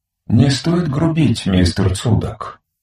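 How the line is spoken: Gentle mechanical remark. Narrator (Russian): мягко заметил механизм

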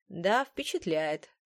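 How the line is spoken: Dry agreement. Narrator (Russian): сухо согласился Уильям Дорсет

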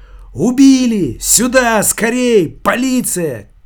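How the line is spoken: Screaming. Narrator (Russian): кричала она

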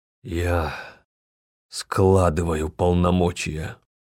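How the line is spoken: Growled in face. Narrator (Russian): прорычал в лицо Лейдере

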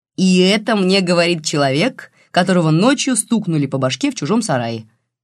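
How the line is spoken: Snide remark. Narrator (Russian): ехидно заметил Макар

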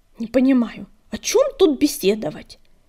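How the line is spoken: Angry hiss. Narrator (Russian): сердито прошипела королева

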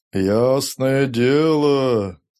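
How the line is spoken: Sepulchral voice. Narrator (Russian): начал он загробным голосом

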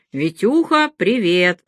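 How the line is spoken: Deep booming voice. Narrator (Russian): пробасил Павловский

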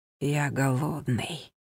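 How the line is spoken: Whisper. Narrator (Russian): прошептал он

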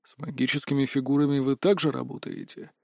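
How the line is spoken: Calm clarifying question. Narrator (Russian): спокойно уточнил Кибе

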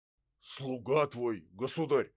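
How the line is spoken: Flustered, confused speech. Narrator (Russian): растерянно говорил Строганов

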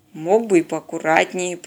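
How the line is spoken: Grumbling. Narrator (Russian): проворчал Теодор

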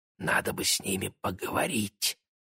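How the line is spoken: Conspiratorial whisper. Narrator (Russian): заговорщически шепнул близнецам Игорь

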